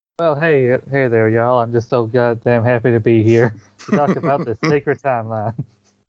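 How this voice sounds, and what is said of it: Southern-accented cartoon character voice. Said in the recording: “Accent ... It was like Miss Minutes was in the room with me.”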